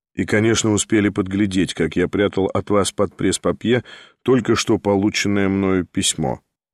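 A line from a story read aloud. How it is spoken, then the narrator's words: Calm. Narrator (Russian): спокойно проговорил Николай Всеволодович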